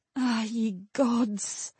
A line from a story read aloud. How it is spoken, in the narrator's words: Levian whispered aloud